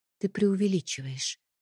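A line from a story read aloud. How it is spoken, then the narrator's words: Quiet, hiding fear. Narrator (Russian): произнесла я тихо, стараясь не выдавать страх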